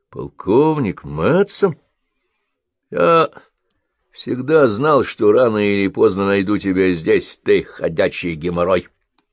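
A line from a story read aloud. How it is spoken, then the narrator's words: Mock-grumbling, secretly joyful colonel. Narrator (Russian): пробурчал полковник, но радость, светившаяся в его глазах, указывала на то, что сказано это не всерьез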